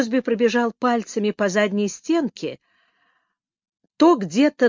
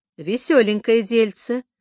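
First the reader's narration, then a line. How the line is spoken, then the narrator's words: Gloomy remark. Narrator (Russian): мрачно заметил Слоун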